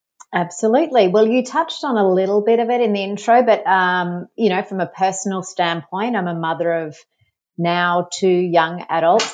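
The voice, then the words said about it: Australian accent. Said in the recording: “I'm from Australia. You might have been able to tell, pick up the accent.”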